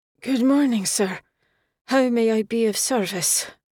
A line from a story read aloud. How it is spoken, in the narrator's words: Alban said, his words slurred